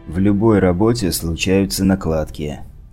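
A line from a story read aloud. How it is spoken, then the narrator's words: Tired mutter. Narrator (Russian): устало пробормотал я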